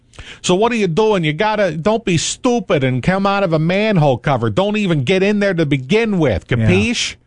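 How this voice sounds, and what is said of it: Put-on New York accent. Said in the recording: “my New York accent needs a little bit of work”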